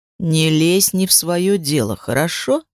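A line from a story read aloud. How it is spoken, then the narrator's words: Sudden gloomy tone. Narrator (Russian): мрачно сказал он вдруг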